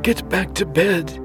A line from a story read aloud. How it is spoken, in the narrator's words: he said unsteadily